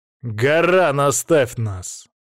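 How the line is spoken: Commanding, imperious tone. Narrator (Russian): сказал я повелительным тоном, достойным императора

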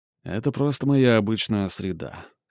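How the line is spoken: Snorting. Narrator (Russian): хмыкнул

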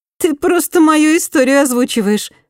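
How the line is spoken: Laughing. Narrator (Russian): рассмеялась Инга

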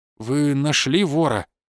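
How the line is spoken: Forced out, suppressed anger. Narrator (Russian): выдавил из себя Евгений Александрович, едва сдержавшись, чтобы не накричать на собеседника

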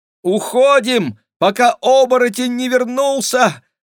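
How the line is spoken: Screaming. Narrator (Russian): завопила Клава

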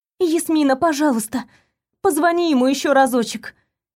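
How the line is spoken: Pleading. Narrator (Russian): взмолилась я

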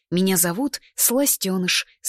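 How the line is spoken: Plain. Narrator (Russian): сказал он

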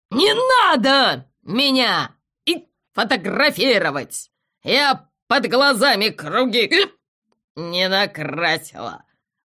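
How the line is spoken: Barking owl. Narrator (Russian): рявкнула сова

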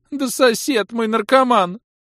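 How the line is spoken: Rapid chatter, old woman. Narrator (Russian): Тут же зачастила бабка

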